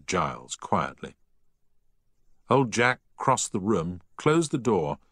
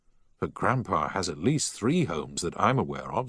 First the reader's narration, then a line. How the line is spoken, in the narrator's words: said Giles